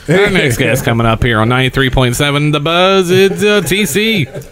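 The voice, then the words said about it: Put-on radio announcer voice. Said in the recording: “That'd be my radio voice.”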